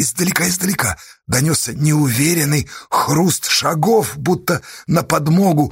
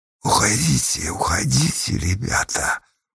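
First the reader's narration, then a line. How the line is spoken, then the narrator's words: Hoarse old voice. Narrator (Russian): услышала Сташа сиплый старческий голос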